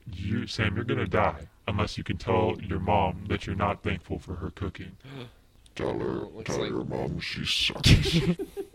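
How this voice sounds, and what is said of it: Imitation of Jigsaw's voice. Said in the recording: “the Jigsaw voice”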